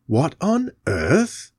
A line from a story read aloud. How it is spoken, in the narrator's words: muttered the Doctor